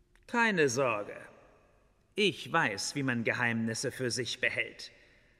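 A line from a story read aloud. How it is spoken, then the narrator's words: Cool, cold voice. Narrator (German): antwortete die Nacht mit kühler Stimme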